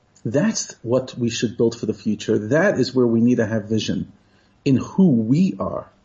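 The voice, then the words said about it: New York accent. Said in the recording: “a fellow New Yorker. If you don't know by my accent now ... my accent and coffee don't seem to be going away”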